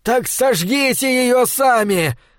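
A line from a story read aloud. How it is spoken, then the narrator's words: Yell. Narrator (Russian): завопил он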